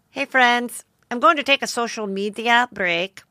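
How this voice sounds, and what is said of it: Put-on accent imitating another person. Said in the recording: “Oh, I have to do the accent.”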